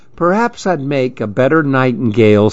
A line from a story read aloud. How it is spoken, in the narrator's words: said Lou